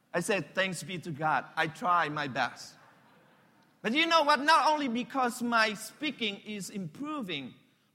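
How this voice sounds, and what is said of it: Non-native accented English. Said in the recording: “your English really improved now ... you try to listen to me so that you can catch my accent”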